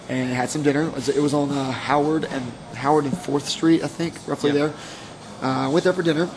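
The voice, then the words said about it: Hoarse, fading voice. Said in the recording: “Sorry, I'm losing my voice already. It's only Monday.”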